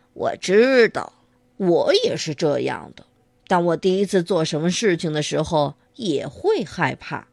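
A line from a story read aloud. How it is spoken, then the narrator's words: Father, warmly laughing. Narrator (Chinese): 他的爸爸笑了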